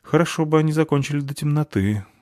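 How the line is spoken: Sigh. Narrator (Russian): вздохнула Фаль

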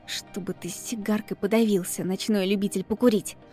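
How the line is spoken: Coughing, quiet. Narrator (Russian): закашлялась и произнесла тихонько

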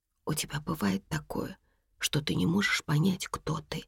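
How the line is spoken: Whisper right in ear. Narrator (Russian): шепнула Урсула Лесе прямо на ухо

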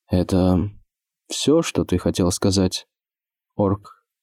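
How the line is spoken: Even calm question, monarch. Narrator (Russian): спросил монарх ровным, спокойным голосом

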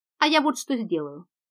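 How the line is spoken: Plain. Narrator (Russian): ответил Джонни

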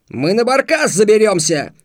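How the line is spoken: Yell. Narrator (Russian): заорал Косум

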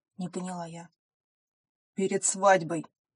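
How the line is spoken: Growling. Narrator (Russian): буквально зарычал лорд

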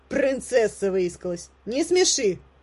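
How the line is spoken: Mocking quip. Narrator (Russian): начальница всех служанок сказала это для красного словца

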